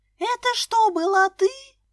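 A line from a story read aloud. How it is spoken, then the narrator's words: Shout of sudden realization. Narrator (Russian): закричала Лиска, как только осознала, что происходит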